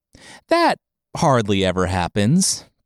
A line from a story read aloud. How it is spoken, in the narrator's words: Town Mouse laughed, nervously